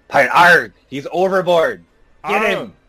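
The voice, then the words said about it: Put-on pirate voice. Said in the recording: “we have to talk pirate.”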